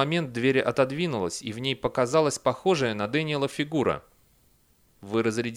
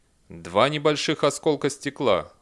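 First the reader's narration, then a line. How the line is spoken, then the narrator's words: Cold robotic. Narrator (Russian): холодно ответил робот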